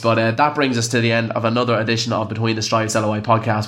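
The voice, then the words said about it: Sick, under-the-weather voice. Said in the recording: “I really am under the weather tonight, as you can probably hear by my voice.”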